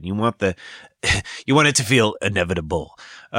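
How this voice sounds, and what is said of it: Thanos character voice impression. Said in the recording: “That was my Thanos impression.”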